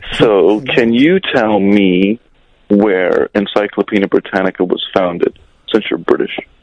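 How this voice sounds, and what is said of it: American accent. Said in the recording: “I'm British, too, by the way, although I sound like an American.”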